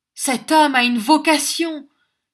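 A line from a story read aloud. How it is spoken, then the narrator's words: Exclaiming. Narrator (French): s'écria mon voisin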